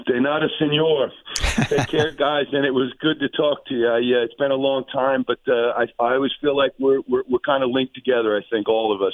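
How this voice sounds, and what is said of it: New York accent. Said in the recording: “Spanish with a New York accent.”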